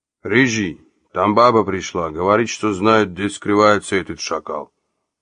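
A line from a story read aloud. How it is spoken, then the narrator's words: Muffled deep bass. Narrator (Russian): произнес он глухим басом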